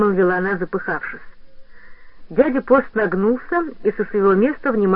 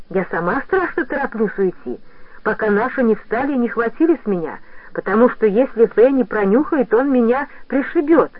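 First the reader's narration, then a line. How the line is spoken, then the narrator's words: Persuasive girl. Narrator (Russian): убедительным тоном сказала девочка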